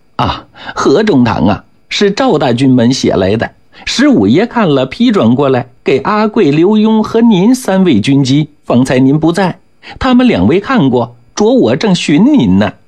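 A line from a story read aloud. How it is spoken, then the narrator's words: Hurried ingratiating smile. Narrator (Chinese): 捕人赶忙陪笑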